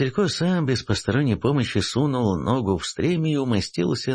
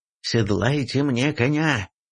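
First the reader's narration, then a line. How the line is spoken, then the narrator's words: Prince growling. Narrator (Russian): прорычал князь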